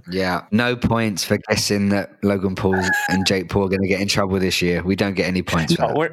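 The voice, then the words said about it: Congested voice from a cold. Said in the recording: “if you can't tell from my voice, I am suffering from a bit of a cold”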